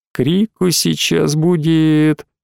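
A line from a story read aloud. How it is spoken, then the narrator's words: Sighing. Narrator (Russian): вздохнула Алина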